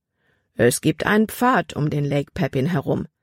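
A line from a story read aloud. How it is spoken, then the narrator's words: Plain man's voice. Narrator (German): antwortete der Mann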